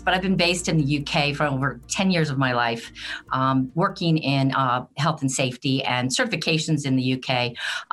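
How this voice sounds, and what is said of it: American accent. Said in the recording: “my accent will tell you that I am from the United States”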